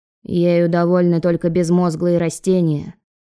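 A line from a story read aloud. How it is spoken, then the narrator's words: Grumbling mutter. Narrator (Russian): пробурчал Лёня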